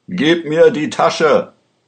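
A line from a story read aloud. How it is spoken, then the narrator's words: Shouted. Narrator (German): schrie er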